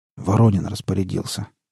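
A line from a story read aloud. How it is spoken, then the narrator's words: Hoarse barman's reply. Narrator (Russian): хрипло отозвался бармен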